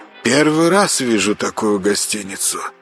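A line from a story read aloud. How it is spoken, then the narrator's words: Low half-voiced mutter. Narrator (Russian): пробормотал Константин в полголоса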